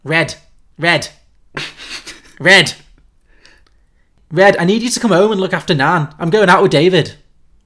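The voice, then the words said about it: Scouse accent. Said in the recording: “the note is Scouse accent ... I can't do a Scouse accent”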